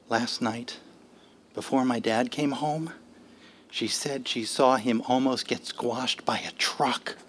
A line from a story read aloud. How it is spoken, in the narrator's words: he said in a whisper